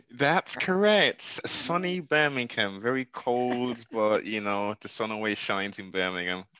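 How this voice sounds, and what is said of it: English Birmingham accent. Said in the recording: “you can understand my English accent... Birmingham”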